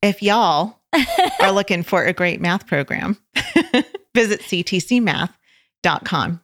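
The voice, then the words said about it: Put-on Oklahoma accent. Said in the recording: “I'm gonna say this in my best Oklahoma accent.”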